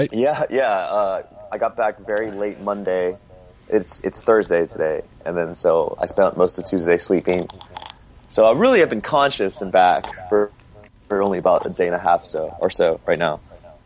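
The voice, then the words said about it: Hoarse, partly lost voice. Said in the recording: “Excuse my voice. I lost my voice pretty badly on this tour ... I'm still sort of kind of gaining it back fully”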